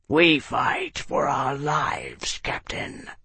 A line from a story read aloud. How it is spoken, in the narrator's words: Nasorg growled